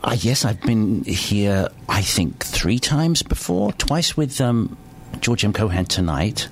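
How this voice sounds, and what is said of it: British accent. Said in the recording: “that wonderful British accent”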